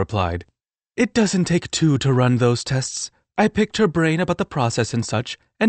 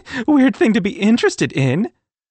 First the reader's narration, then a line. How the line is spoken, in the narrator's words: Sophie laughed